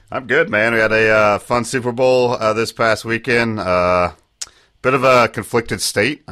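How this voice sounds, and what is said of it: Sick, losing voice, pitch dropping. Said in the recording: “Now I'm sick again. ... we're losing ... octaves as we roll. ... And they're dropping quick. ... I've Lost My Voice”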